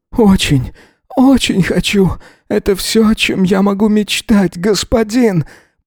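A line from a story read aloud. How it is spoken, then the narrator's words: Hoarse whimper. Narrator (Russian): проскулил Эзра, охрипнув от вскриков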